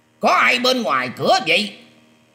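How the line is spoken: Alarmed loud shout. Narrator (Vietnamese): sắc mặt của Khương Nguyên liền biến hẳn, quát to lên rằng

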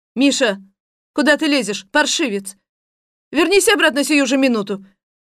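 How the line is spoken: Woman shouting. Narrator (Russian): кричал женский голос

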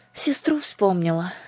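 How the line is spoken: Tearful, sighing. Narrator (Russian): сказала Аннушка, вздохнула и вытерла набежавшие на глаза слезы

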